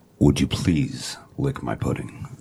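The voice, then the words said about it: Put-on sexy voice. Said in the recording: “doing a sexy voice competition”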